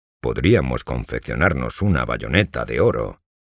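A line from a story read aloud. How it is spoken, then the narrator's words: Plain. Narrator (Spanish): dijo Hermanito Soñador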